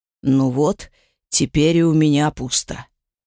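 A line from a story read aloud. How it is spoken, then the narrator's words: Gloomy announcement. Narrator (Russian): мрачно объявил сын Серка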